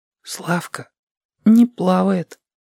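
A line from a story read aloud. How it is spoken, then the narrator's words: Whisper. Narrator (Russian): сказал шепотом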